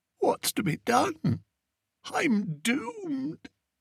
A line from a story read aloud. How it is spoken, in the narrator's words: Whiter than the snowy icing on his half-eaten folderol fancy, Fred croaked